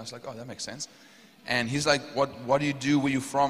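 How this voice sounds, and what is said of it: South African accent. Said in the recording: “you have a South African accent”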